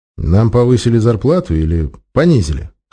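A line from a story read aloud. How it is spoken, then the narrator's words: Snorted. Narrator (Russian): хмыкнул 13-й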